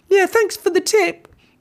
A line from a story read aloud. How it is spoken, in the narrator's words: shouted Sam with a little piggy snort